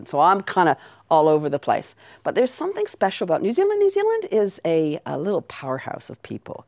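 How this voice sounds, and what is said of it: Canadian accent. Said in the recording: “although I sound like this ... raised in Canada, which is the accent.”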